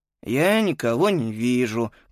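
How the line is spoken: Grumbled. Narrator (Russian): проворчал Антон

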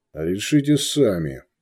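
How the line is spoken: Cold reply. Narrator (Russian): холодно ответил Вольф

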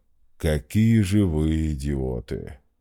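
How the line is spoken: General's low boom. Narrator (Russian): прогудел генерал

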